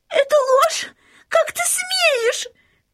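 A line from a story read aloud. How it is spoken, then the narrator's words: Princess shouting. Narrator (Russian): закричала принцесса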